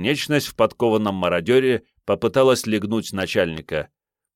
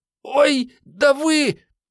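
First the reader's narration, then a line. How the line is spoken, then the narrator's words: Squeak, abruptly cut off. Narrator (Russian): пискнула Мариетта и вдруг умолкла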